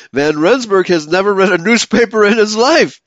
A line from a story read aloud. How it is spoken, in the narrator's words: Laughingly, replied